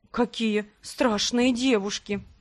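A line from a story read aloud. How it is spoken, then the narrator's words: Quiet zombie. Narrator (Russian): тихо сказал зомби-художник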